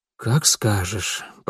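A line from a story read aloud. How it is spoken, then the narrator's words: Muttering. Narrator (Russian): пробормотал Элиас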